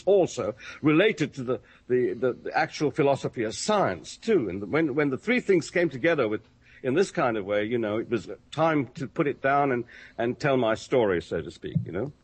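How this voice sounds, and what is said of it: English accent. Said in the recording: “how much they love your accent... the first time I've been called old chap by a real Englishman”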